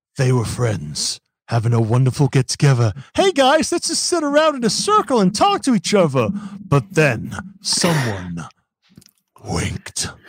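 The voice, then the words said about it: Dramatic movie trailer voice. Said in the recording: “trailer voice”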